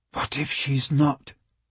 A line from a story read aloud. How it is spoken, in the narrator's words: Michael whispered